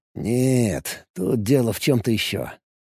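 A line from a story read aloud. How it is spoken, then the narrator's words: Muttering. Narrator (Russian): пробормотал Алекс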